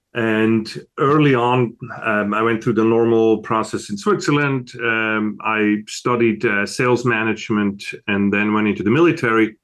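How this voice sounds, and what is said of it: Swiss European accent. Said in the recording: “As you can tell from my accent, I wasn't born in America. I was born over in Switzerland, in Europe.”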